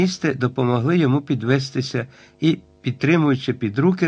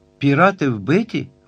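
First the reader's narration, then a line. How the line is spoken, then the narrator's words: Weak exclamation. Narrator (Ukrainian): вигукнув Айртон, незважаючи на свою кволість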